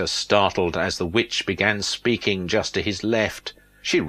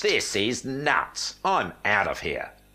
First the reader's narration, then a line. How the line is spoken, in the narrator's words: Peter said firmly